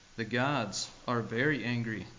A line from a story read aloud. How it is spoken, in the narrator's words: said the priest